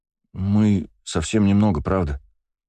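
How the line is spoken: Guilty tone. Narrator (Russian): виноватым тоном сказал конопатый Саша

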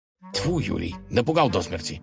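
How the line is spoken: Grumbling. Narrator (Russian): проворчал князь

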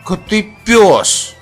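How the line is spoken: Angry mutter, boy. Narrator (Russian): сердито пробормотал мальчик

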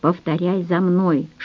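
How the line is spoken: Whisper. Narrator (Russian): шепнула я

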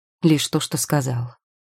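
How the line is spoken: Cold. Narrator (Russian): холодно отозвался Теодор

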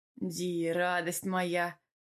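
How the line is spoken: Sigh. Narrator (Russian): Вздохнул он

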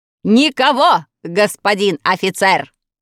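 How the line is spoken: Loud shout. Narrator (Russian): громко крикнул вниз

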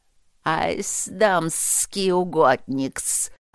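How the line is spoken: Flattered hiss. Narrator (Russian): зашипела Инри польщенно

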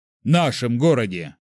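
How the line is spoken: Sarcastic, deliberately loud repetition. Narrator (Russian): язвительно нарочито громко повторил

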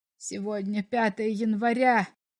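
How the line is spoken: Despairing mutter. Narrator (Russian): В отчаянии пробормотал комиссар

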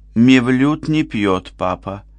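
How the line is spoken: Plain. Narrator (Russian): сказала она

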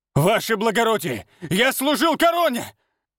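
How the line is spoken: Desperate shouting. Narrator (Russian): Отчаянно кричал когда его волокли к выходу

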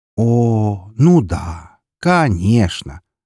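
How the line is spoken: Sarcastic drawl. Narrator (Russian): язвительно протянул я

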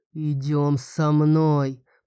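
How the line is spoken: Growling. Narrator (Russian): прорычал Фирал

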